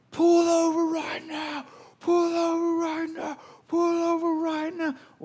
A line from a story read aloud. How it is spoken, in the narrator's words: yelling back